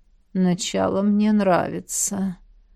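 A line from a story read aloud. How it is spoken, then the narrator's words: Sleepy mumble. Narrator (Russian): сонно пробормотал Эдмунд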